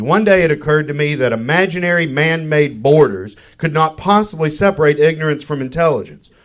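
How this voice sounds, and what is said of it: Kentucky Southern accent. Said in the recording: “I'm originally from Kentucky. ... my accent, the way I say franger.”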